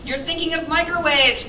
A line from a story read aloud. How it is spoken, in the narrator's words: Claire yelled back